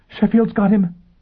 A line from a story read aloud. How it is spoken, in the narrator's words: Bunny gasped